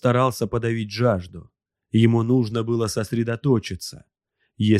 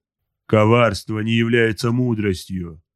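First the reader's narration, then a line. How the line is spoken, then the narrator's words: Barking. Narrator (Russian): рявкнул Эрвин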